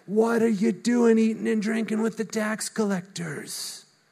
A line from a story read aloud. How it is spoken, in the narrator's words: the Pharisees, that's the religious leaders, they were grumbling